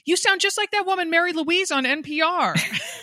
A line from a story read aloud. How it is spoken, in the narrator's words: from across the net, she yells